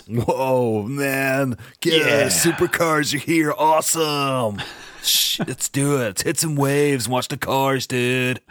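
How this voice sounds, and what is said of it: Put-on Californian surfer accent. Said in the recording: “Californian”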